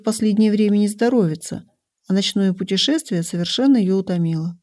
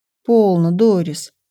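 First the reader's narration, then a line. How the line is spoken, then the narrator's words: Mother's gentle warning. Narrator (Russian): мягко предостерегла мать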